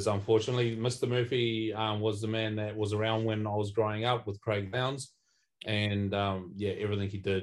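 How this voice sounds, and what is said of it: New Zealand accent twang. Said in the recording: “as you probably tell by the twang, it's the old Kiwi twang that's coming out”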